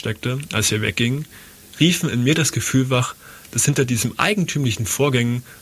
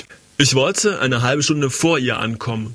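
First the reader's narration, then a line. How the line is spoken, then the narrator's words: Exclaiming. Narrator (German): rief er aus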